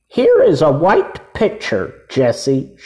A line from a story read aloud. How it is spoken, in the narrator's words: she cried